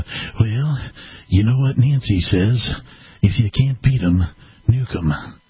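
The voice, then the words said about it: Imitates another person's voice. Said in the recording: “my Ronald Reagan impression”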